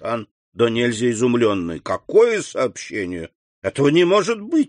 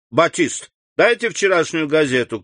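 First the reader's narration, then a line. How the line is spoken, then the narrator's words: Shouting. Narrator (Russian): крикнул Бошан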